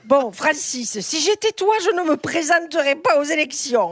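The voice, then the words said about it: Put-on Italian accent in French. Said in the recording (French): “l'accent. Ah, ... ça, c'est l'accent italien”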